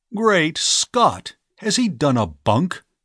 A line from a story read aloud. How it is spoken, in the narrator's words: he cried